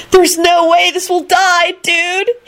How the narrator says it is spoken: he screamed desperately

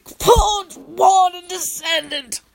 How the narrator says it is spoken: he rasped out in a cheery voice

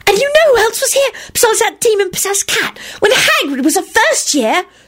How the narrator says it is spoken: Serena squealed dramatically, with excitement

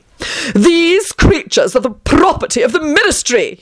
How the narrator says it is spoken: he howled

